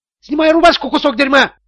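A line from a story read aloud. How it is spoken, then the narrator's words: Shrieked. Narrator (Russian): взвизгнул Тони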